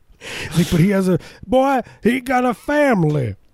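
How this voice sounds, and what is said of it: Old white southern judge voice. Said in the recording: “my impersonation of like a. Old white southern judge”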